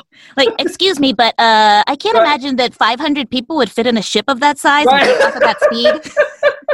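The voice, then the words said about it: Nerdy character voice. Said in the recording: “I guess that was my nerd voice.”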